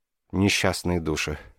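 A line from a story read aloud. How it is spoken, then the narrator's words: Sad. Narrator (Russian): печально произнесла она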